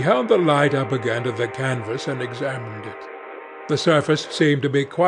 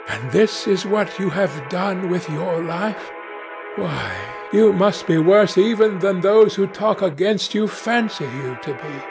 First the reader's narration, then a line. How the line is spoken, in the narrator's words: exclaimed